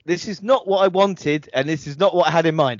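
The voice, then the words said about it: Exaggerated put-on English accent. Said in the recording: “I'm trying to put on an English accent when I'm actually English”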